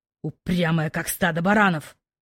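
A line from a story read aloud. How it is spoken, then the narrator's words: Growled. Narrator (Russian): Рыкнув, Кайден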